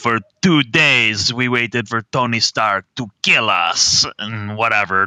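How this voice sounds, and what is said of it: Put-on accent quoting a character. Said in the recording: “That's my accent.”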